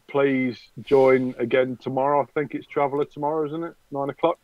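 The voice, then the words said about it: Voice of someone with a cold. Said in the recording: “I'm full of cold and flu”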